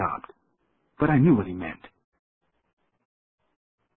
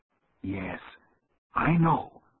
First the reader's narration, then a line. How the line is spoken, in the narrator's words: he replied gently